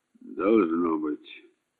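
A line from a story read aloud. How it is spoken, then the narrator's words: Gruff mutter. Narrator (Russian): буркнул комиссар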